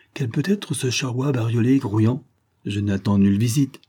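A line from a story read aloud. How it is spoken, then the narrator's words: Cheerful. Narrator (French): fit-il gaiement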